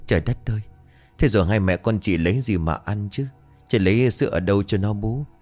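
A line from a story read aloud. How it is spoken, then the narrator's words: Sighing. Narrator (Vietnamese): Mận bấy giờ thở dài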